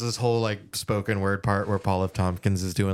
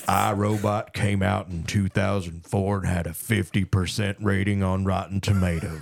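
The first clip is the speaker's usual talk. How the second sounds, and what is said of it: Imitates another person's voice. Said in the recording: “doing like a Sam Elliott type voice”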